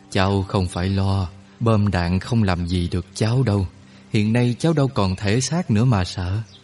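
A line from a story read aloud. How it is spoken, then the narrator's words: Smiling. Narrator (Vietnamese): ông mỉm cười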